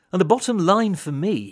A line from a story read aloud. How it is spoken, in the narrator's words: he said